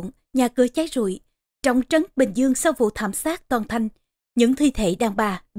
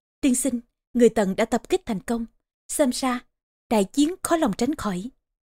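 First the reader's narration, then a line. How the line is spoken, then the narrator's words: Soft report. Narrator (Vietnamese): Tống Kiện khẽ bám báo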